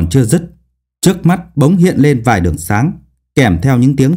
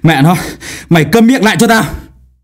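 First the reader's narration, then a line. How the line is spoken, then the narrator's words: Panting, resentful. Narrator (Vietnamese): Thái Vĩ thở hổn hển, oán hận nói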